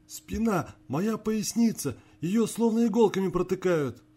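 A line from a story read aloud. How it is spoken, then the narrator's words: Pained wail. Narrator (Russian): завопил чиновник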